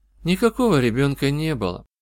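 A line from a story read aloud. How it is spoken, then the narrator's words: Tired objection. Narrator (Russian): устало возразила она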